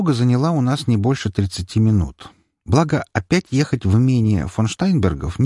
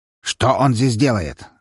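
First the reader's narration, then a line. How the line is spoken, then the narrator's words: Irritated question. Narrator (Russian): раздраженно спросил Штайнберг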